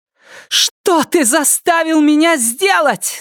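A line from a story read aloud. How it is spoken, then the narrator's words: Shout. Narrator (Russian): закричала она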